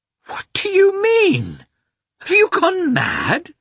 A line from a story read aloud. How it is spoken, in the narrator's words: exclaimed Dolly, terrified